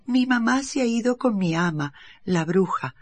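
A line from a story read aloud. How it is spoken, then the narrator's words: Plain. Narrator (Spanish): respondió Gobolino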